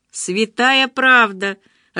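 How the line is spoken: Laughing. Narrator (Russian): рассмеялся Андрей

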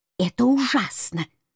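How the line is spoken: Sisters hissing. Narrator (Russian): шипели сестры

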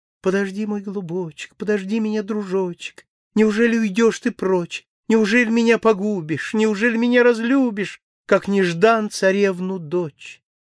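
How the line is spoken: Sad cooing. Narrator (Russian): голубка печально ворковала

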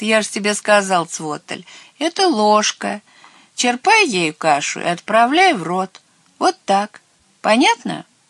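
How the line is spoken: Laughing. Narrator (Russian): Херби рассмеялся

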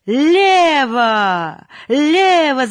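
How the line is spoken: Loud yelling. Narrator (Russian): завопил Нечепуренко

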